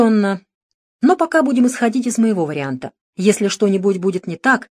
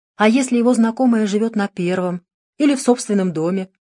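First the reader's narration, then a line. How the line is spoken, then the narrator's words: Plain. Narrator (Russian): спросил Манучар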